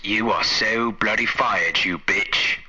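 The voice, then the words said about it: American putting on an English accent. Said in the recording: “like an American doing an English accent?”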